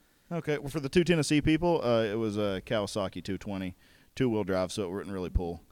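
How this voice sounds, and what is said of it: Usual voice. Nothing is said of it.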